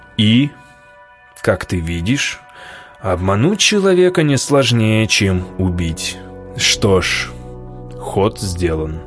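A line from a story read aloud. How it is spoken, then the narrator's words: Low voice. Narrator (Russian): произнес уже низким голосом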